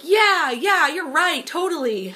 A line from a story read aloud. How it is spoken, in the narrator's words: And they were shouting